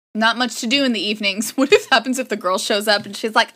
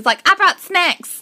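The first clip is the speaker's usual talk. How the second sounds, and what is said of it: Slight Southern US accent. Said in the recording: “why does she have a slightly southern accent?”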